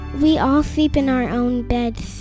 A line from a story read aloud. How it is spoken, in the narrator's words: he said